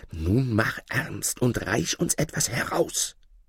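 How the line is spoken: Whispering. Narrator (German): flüsterten ihm zu

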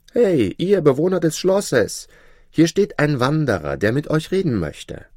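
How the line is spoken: Loud call. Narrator (German): rief laut

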